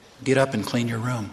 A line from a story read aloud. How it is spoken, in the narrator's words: The Holy Ghost whispered